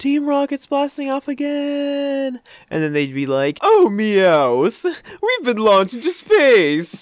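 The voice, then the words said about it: Cartoon character voice impression. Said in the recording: “that was a pretty good James impression”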